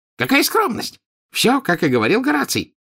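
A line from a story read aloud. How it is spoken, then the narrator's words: Exclaiming. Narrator (Russian): воскликнул Уорпл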